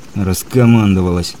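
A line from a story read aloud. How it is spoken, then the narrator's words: Through gritted teeth. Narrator (Russian): процедил сквозь зубы капитан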